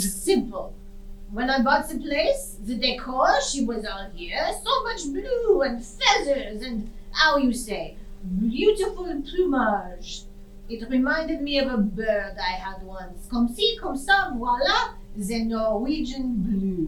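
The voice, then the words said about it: Put-on foreign accent. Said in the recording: “You're not from Norway. ... Did my accent give it away?”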